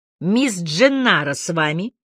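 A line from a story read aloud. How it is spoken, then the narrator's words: Deep bass voice. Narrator (Russian): басом сказал я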